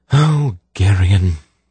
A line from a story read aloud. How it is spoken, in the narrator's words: she sighed in resignation